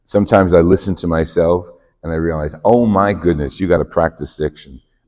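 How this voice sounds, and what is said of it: New Jersey accent. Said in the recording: “I'm from Jersey City originally, New Jersey, and you know, like like you couldn't tell from my accent.”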